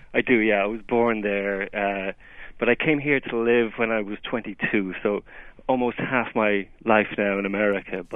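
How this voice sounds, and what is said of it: Irish accent. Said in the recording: “I hear from your accent that you may have roots in Ireland.”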